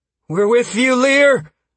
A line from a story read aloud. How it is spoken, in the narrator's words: Caius's voice called out from behind me